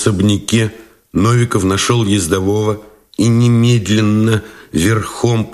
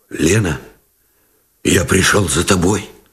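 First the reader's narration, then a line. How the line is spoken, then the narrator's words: Muffled hoarse voice. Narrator (Russian): Глухо и хрипло выговорил Новиков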